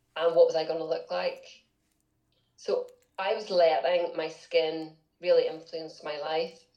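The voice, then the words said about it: Northern Irish accent. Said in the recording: “Northern Ireland, which is where I was originally from. You can probably tell by the accent.”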